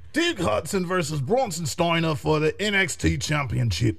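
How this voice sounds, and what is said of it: Imitates another person's voice. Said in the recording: “my Wade Barrett impression.”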